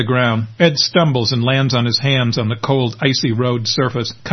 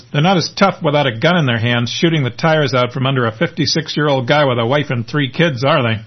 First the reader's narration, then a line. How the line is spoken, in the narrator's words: One of the drivers laughs and says